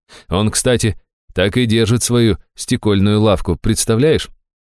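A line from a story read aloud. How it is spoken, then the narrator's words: Quiet relieved laugh. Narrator (Russian): Аштира тихо с облегчением рассмеялась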